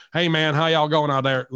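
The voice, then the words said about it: Put-on Southern American accent. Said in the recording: “that Southern accent”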